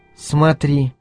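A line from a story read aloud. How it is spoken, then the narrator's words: Whisper. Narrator (Russian): шепотом произнесла она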